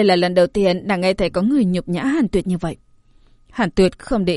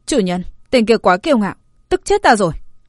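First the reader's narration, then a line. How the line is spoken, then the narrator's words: Angry. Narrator (Vietnamese): Ngộ Đạo Kiếm, tràn đầy tức giận nói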